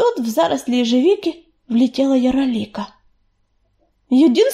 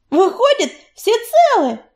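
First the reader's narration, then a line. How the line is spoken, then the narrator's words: Joyful exclamation. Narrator (Russian): радостно воскликнула Белочка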